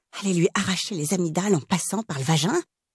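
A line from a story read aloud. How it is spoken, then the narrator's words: Whispered. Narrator (French): chuchotai-je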